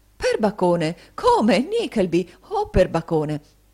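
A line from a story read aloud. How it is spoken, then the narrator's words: Hearty exclamations. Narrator (Italian): cacciato queste esclamazioni, il signore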